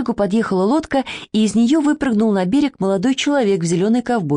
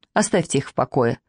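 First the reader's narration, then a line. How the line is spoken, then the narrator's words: Dry, curt. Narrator (Russian): сухо сказал молодой человек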